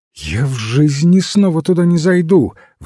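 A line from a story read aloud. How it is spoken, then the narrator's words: Exclaimed. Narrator (Russian): воскликнула она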